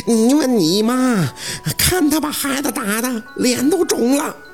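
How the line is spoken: Panting, angry old woman. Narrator (Chinese): 老太太喘着粗气

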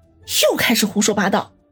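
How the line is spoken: Pouting annoyance. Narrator (Chinese): 嗔怒说道

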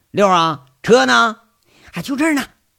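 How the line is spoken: Shouting. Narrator (Chinese): 就喊一声

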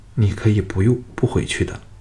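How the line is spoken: Low voice. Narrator (Chinese): 低声说

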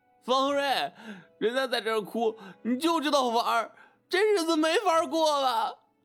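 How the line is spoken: Crying, shouting loudly. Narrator (Chinese): 亮子 边哭边扯着嗓子喊

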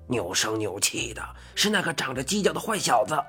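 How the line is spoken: Old man, low voice. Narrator (Chinese): 我吓了一跳，怪老头眨巴眨巴小眼睛，低声说

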